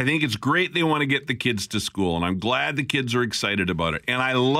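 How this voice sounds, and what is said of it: Usual voice. Nothing is said of it.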